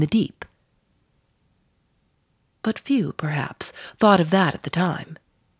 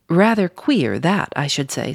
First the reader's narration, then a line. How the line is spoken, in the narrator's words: said Stubb